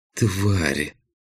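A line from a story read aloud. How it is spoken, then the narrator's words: Dejected whisper, inside head. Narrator (Russian): упавшим голосом прошептала у меня в голове Джейлит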